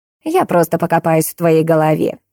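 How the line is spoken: Old woman's snort. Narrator (Russian): хмыкнула бабка

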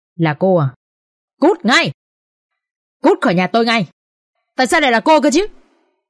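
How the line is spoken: Angry screaming woman. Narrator (Vietnamese): Tiếng bà Thu Hoài hét lên giận dữ

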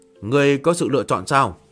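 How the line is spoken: Cold. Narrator (Vietnamese): Phá quân lạnh lùng

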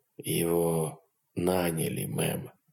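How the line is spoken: Quiet colonel. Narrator (Russian): тихо произнес полковник

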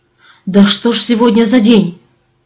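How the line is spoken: Exclamation. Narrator (Russian): воскликнул землянин

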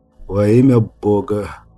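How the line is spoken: Cracked, exhausted voice. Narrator (Russian): произнес Брайан натреснутым, измученным голосом

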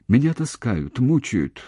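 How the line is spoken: Whisper. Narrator (Russian): шепотом сказала

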